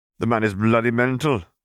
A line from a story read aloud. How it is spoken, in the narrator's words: Charles wheezed